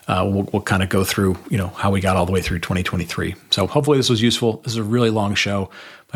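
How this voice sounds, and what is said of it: Slightly hoarse voice. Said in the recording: “My voice is starting to probably get a little bit hoarse.”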